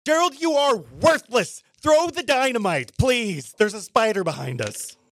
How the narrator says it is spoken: going to yell

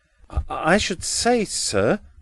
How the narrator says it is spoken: stammered Edwin

